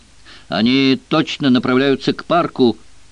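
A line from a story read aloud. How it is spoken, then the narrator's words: Shout. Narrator (Russian): крикнул Бронсон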